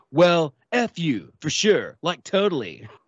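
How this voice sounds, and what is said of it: Imitates another person's voice. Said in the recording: “best Nicolas Cage impersonation”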